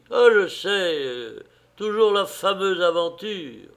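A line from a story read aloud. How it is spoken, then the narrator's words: Conciliatory, self-important tone. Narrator (French): Il avait dit ces mots d'un ton conciliant et important, comme s'il eût été lui-même un peu dans le secret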